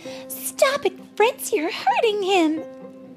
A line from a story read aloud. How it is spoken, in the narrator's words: cried Marie